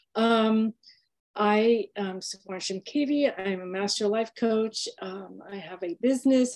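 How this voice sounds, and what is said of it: Slightly hoarse, throaty voice. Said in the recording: “I have a little bit of a frog in my throat”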